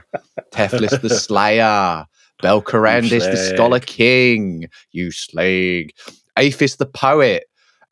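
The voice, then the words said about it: Put-on Essex accent. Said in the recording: “In an Essex accent for no reason whatsoever.”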